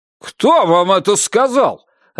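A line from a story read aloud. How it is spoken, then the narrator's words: Barking. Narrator (Russian): рявкнул Орнер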